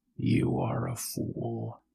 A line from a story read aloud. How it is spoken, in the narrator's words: the lion grumbled